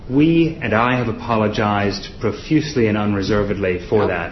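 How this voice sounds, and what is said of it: Odd mid-Atlantic accent. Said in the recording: “It's an all odd odd accent his son has. ... Yeah, sort of mid-Atlantic. ... he's got a half British, half American citizenship.”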